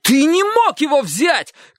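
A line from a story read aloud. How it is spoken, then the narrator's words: Shouted. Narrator (Russian): крикнул Чик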